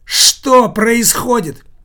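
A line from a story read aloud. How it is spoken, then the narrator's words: Hysterical shout. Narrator (Russian): истерически закричал Никита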